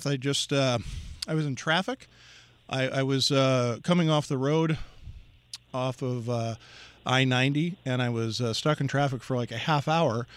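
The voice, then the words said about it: Breathless, out-of-breath speech. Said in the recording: “I'm a little out of breath ... now I'm out of breath”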